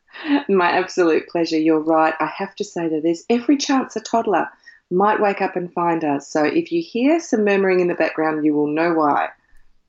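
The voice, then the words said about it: Australian accent. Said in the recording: “they could detect an accent... You're in Australia”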